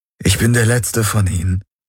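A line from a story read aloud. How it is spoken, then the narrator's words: Plain. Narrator (German): sagte er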